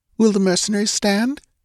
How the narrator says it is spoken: she asked anxiously

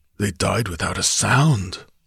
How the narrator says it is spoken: muttered the Cimmerian

